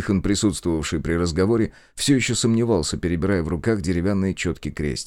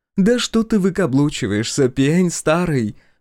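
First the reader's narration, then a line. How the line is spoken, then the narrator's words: Exclaiming. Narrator (Russian): воскликнула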